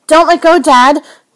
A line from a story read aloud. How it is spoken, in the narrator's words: the boy shrieks